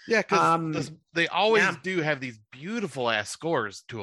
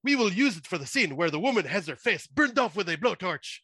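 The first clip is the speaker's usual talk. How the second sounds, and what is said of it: Put-on French-sounding accent. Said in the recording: “That was more of a French accent”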